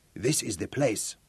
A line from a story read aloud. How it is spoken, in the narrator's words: Ezra grunted